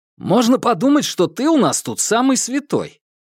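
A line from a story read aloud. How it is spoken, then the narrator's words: Exclaimed. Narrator (Russian): воскликнул Ньют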